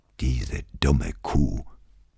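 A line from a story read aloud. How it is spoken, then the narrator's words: Grumbling mutter. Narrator (German): brummelte Brunetti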